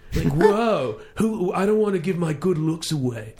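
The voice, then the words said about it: Exaggerated California accent. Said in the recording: “California accent ... It's a bad accent.”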